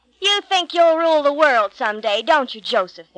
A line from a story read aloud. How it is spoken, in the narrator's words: sneered